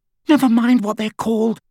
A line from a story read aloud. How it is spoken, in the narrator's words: said Hermione, a little hysterically